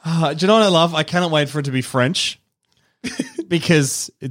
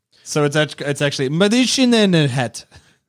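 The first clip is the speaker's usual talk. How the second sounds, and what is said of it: Stereotypical put-on French accent. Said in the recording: “Great French accent. Yeah. Not at all stereotypical or offensive.”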